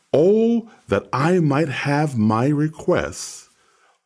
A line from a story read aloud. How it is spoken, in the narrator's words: Job exclaims